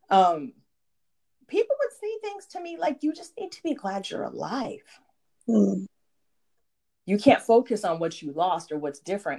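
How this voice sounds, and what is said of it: Emotional, choked-up voice. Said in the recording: “I admit I'm getting a little choked up over here.”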